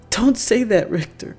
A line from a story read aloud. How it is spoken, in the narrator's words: choked out